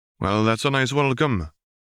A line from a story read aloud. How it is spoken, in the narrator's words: Charles commented dryly